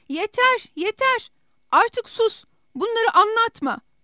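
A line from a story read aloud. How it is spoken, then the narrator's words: Shouted uncontrollably. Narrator (Turkish): diye bağırmaktan kendini men edemedi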